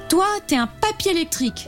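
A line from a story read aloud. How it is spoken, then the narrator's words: Exclaimed with a smile. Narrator (French): s'écrie-t-elle en lui souriant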